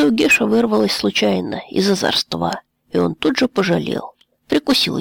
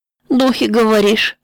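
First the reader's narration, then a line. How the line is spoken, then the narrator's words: Laughing. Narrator (Russian): засмеялся он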